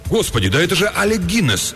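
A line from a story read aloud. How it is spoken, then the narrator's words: Sudden exclamation. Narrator (Russian): вдруг воскликнул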